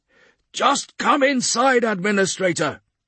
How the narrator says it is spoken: he shouts grimly

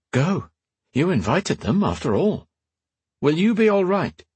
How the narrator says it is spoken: she kept her tone even

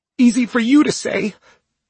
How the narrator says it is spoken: Lucy cries, and her distress

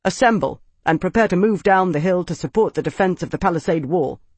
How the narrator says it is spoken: he said sharply

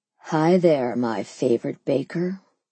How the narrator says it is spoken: purred

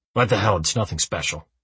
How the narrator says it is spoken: he mumbles

